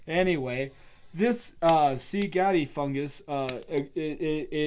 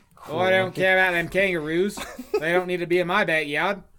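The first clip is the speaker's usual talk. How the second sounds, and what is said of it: Put-on Australian accent. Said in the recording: “that's Australian ... I'm just speaking Australian”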